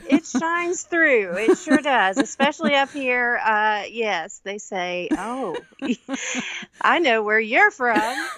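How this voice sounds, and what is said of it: Southern US belle accent. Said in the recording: “you sound a lot more like you're from around here than me ... You have beautiful Southern belle accent.”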